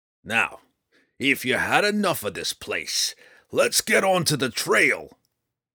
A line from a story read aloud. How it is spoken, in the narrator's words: Roddy boomed